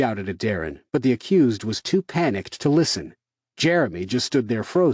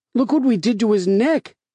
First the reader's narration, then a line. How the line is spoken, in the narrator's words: Peter said, his voice frantic